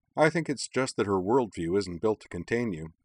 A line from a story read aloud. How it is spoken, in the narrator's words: Shepard replied dryly